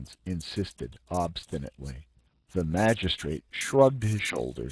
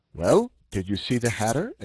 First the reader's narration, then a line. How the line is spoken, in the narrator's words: exclaimed the magistrate, eager at last to obtain some positive information